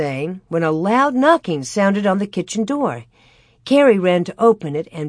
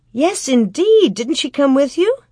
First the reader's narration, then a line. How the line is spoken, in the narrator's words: Ma said eagerly